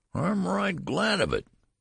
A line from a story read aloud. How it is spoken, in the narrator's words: whined the old man